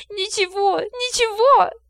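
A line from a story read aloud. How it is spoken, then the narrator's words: Muffled sobbing. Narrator (Russian): рыдала Дина, уткнувшись в потертую ковровую подушку и заливаясь слезами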